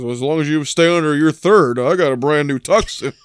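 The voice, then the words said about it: Deeper, condescending Lou Grant voice. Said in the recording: “that's how you gotta impersonate his voice, right? You gotta get a little deeper, a little more condescending.”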